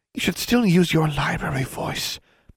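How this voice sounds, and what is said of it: Hushed, quiet library voice. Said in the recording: “in a hushed library voice.”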